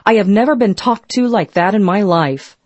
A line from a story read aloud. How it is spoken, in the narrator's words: Astonished, Molotov blurted out